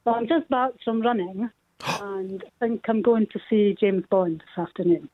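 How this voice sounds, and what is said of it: Scottish accent. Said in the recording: “I sense an accent. ... I'm from Dundee, Scotland.”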